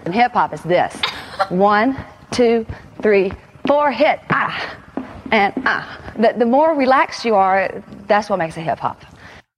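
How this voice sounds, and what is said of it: Southern US accent. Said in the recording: “I love the like Southern accent.”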